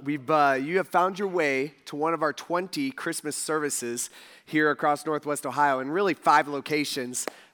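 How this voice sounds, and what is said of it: Strained, worn-out voice. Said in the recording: “My voice is a little messed up ... it has messed up my voice”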